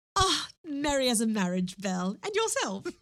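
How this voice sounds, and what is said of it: Put-on British RP accent. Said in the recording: “I do feel I have to do it in an RP accent, though.”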